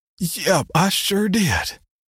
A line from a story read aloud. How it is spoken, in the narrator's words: sighed